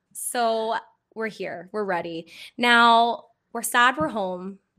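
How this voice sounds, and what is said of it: Raspy, phlegmy voice from illness. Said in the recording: “I'm a little bit under the weather today. I am just a little phlegmy. ... so I've got a bit of a raspy voice kind of going on.”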